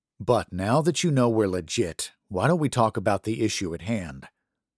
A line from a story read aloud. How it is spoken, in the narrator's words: Daniel sighed